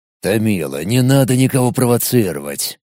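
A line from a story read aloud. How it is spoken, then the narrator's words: Sullen mutter. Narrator (Russian): Хмуро буркнул Владимир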